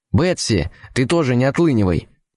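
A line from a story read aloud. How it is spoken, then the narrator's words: Sharp shout. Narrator (Russian): прикрикнул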